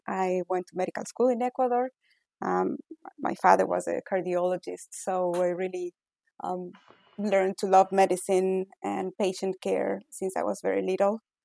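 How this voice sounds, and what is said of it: Ecuadorian Spanish-accented English. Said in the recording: “as you can tell from my accent, I was not born in the U.S. I was born in Ecuador”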